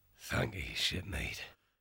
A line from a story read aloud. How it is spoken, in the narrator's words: Finbar grunted